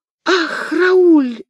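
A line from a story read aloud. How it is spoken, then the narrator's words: Exclaiming. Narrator (Russian): воскликнула Луиза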